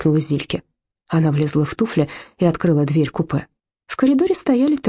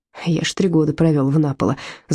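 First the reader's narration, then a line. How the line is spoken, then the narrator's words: Laughing. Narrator (Russian): засмеялся Отто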